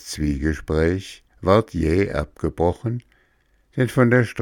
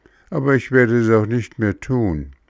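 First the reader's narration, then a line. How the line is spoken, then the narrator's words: Sigh. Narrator (German): seufzte Bengele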